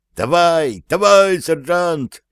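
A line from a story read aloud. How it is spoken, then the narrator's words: Shouting with all strength. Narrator (Russian): что из силы кричал он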